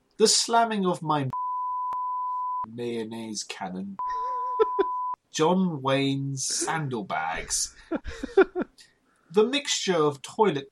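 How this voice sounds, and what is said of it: Posh accent. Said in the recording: “I'll do this one in a posh accent.”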